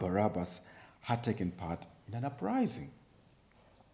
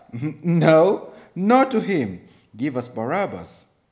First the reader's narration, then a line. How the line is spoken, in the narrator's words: They shouted back